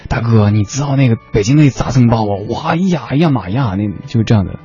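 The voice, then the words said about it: Northeastern Chinese accent put on. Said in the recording (Chinese): “王瓦怎么是这口音啊？搞错了哈，明明是台北的，整成东北的了。”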